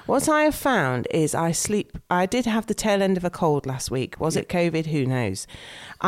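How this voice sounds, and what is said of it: Congested, blocked-nose voice. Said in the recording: “still feeling a little bit bunged up. You can probably hear it in my voice.”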